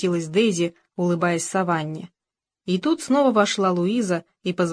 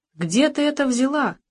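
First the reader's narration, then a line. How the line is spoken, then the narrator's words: Accusing exclamation. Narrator (Russian): воскликнула она так, будто Саванна украла его или вскрыла чужую почту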